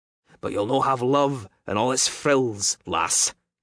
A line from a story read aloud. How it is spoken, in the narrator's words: said harshly